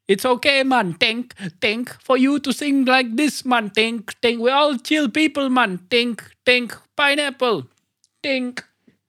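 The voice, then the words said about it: Put-on Jamaican accent. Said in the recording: “the Jamaican one, uh, it's generally acceptable”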